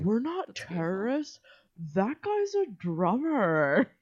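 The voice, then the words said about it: Imitates the surfer-dude turtle from Finding Nemo. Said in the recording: “sound like I the accent I just did ... sound like the fucking turtle from Finding Nemo”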